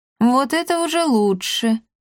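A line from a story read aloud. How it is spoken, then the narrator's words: Contented cat purring. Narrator (Russian): довольно промурлыкал кот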